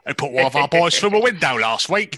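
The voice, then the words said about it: Put-on Cockney accent. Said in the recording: “that guy's Cockney accent alone in that film”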